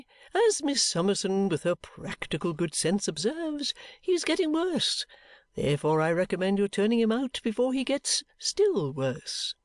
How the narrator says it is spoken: Skimpole cheerfully

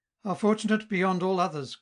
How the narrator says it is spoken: cried he

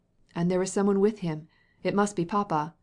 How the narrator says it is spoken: cried Levin

